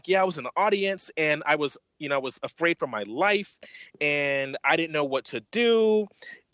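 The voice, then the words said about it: Put-on white girl voice. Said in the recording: “my like best white girl voice ... my voice too deep for that”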